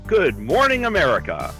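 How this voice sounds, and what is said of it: Announcer-style radio voice. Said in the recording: “Such a good radio voice.”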